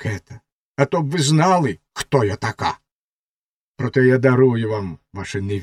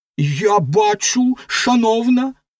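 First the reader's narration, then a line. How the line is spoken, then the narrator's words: High-pitched exclamation. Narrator (Ukrainian): вигукнула ракета дуже з верхнім тоном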